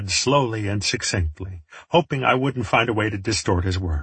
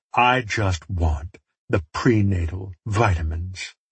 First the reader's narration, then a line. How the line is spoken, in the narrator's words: he sighed